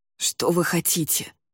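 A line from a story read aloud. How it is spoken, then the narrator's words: Hoarse, pained rasp. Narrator (Russian): прохрипел он, морщась от боли в затекших руках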